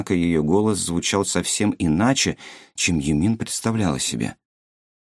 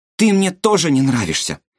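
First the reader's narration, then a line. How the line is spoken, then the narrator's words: Shouting. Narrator (Russian): выкрикнула она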